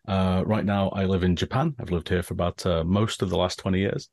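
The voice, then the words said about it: English accent. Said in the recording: “I'm originally from England, as you might tell from the accent.”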